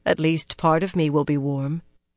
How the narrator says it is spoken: she thought dryly

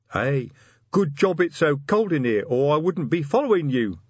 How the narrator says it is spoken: laughed Chrysoprase

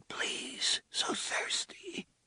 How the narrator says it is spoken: Jake whispered

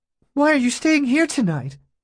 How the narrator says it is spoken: She said in a quavering voice

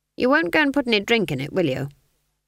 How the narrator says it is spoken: Granny said flatly

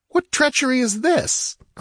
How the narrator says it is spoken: cried

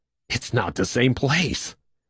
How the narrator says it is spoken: Stanley said hoarsely

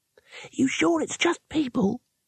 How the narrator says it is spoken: said the youngest wizard nervously

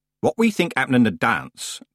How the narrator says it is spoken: Granny Weatherwax began in a loud voice

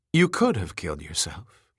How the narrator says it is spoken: said calmly

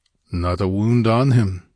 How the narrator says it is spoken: grunted the Cimmerian

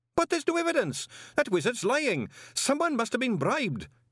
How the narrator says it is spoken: Greenyham pleaded

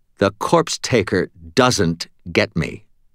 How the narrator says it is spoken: Captain Molly said in a firm tone

